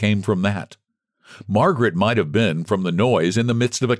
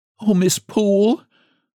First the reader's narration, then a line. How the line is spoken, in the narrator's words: sobbed she